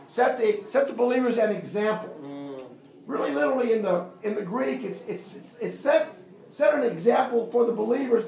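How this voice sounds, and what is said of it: American accent. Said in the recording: “my accent. I come from the United States.”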